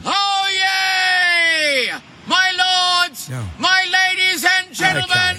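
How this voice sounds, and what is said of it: Very loud town crier proclamation. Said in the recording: “Loudest man ... That's him as a town crier ... Irritating.”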